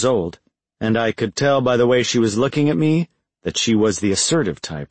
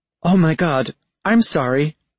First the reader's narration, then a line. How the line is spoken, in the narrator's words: she gasped